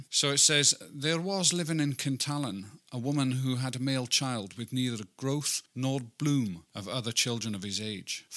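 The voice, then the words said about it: Weak put-on Scottish accent. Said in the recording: “I'll even do the accent for you if you want. ... It's not going to be very good. I apologise to any Scots people listening.”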